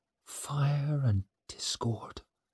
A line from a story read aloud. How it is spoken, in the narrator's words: she muttered